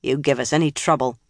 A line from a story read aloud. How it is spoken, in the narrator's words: said in a hard voice